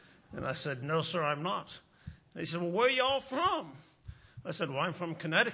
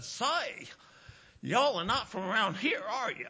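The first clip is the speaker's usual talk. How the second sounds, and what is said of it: Very strong Southern American accent. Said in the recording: “in the biggest southern accent I've ever heard in my life”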